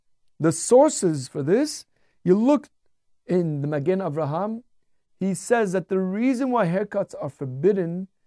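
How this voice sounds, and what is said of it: Non-Ashkenazi accent. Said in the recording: “You can tell by my accent, I'm not really Ashkenazi.”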